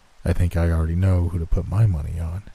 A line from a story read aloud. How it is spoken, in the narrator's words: he said softly